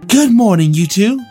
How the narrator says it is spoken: Anna said in a sweet tone

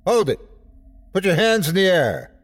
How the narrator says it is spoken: The chief yelled out

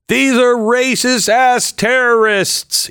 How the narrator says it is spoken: he yelled out in the rotunda

